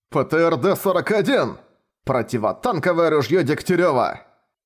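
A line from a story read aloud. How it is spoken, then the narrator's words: Two voices shouting together. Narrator (Russian): Двое прокричали одновременно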